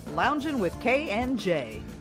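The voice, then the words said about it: Radio announcer voice. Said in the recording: “That was my radio voice.”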